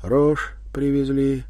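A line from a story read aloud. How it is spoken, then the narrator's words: Sighing. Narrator (Russian): Иван вздохнул, вымолвил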